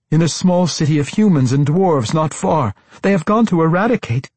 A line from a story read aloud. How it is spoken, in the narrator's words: Sarabel blurted